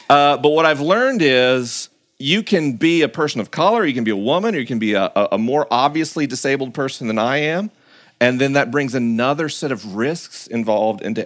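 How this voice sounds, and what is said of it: Slow Southern American drawl. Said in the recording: “Southern American ... I talk slower and I've got a drawl”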